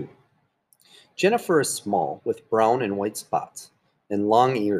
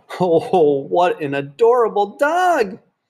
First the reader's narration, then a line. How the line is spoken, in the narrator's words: Libby cried